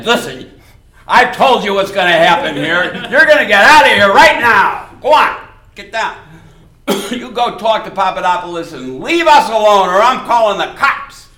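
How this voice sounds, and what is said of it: Stern authoritative teacher voice. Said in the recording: “that teacher voice that teachers have ... my tone of voice”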